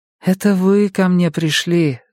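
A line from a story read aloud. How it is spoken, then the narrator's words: Sighing. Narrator (Russian): вздохнула Мия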